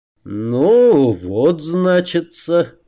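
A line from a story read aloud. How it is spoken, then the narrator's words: Mumbling drawl. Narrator (Russian): протянул он, пошамкав губами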